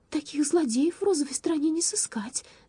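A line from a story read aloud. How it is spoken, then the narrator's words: Trembling voice. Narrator (Russian): дрожащим голосом заявила она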